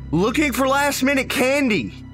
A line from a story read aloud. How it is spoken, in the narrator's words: I shouted back